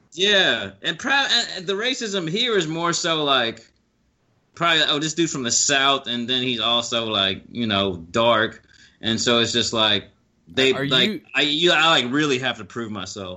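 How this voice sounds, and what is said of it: Southern American accent. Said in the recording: “people can pick out you being Southern? ... from my accent, from the way I talk.”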